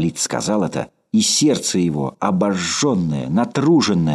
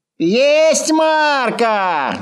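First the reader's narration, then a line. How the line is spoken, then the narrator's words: Shouted reply. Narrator (Russian): закричал в ответ Ложкин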